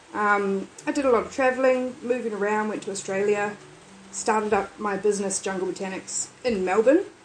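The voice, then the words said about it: Unusual accent, not typical New Zealand. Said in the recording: “I've just got a weird accent. I don't know where it came from”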